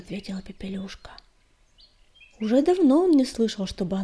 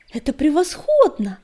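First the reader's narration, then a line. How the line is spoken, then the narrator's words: Exclaimed. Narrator (Russian): воскликнул он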